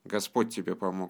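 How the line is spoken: Gruff mutter. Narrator (Russian): буркнул монах

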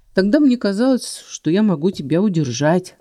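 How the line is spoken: Rueful snort. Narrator (Russian): ответил и хмыкнул, видимо, выражая отношение к собственным заблуждениям

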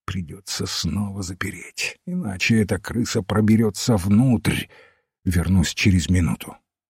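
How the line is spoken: Quick whisper. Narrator (Russian): быстро зашептал своим спутникам

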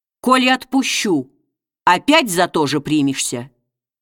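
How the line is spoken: Sullen, solemn question. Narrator (Russian): спросил его угрюмо и торжественно

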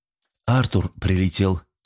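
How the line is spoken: Quiet calm voice. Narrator (Russian): тихим и спокойным голосом сообщила Джесс

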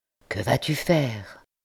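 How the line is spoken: Quiet question. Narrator (French): demanda tout bas l'ancien député

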